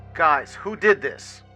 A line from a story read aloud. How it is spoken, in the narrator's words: I questioned in an extremely angry tone